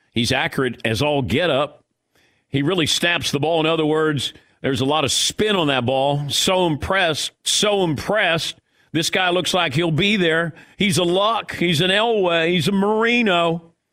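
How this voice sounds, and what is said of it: Enthusiastic, over-the-top sportscaster impression. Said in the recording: “My Terry Bradshaw impersonation. ... It's a little overboard with Terry ... I like Terry's enthusiasm there.”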